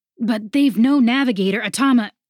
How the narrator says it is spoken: Sawyers cried out as loose rigging, writhing and striking like a serpent, knocked him away from the line

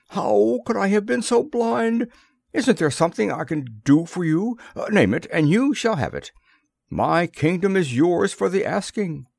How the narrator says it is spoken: he exclaimed

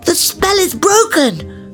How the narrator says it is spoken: cried Milo

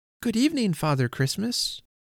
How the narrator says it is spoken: I was bold enough to cry

